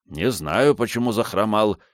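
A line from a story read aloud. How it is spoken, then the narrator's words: Offended reply. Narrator (Russian): обиженно отвечал Антонио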